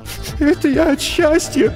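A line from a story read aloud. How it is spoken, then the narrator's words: Mumbled through sobs. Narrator (Russian): Сквозь всхлипы пробормотала она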